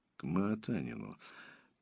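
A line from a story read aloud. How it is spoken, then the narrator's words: Absent-minded mutter. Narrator (Russian): пробормотал Мальгин, отвечая скорее своим мыслям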